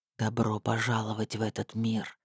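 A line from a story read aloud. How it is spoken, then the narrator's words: Hiss. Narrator (Russian): прошипел Диггер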